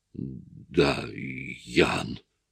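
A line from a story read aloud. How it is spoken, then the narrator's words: Amazed muttering. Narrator (Russian): изумленно пробормотал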